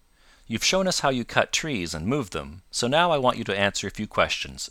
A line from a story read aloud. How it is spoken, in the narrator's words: said she